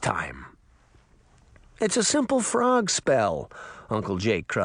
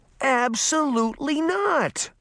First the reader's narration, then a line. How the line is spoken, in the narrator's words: Sabrina cried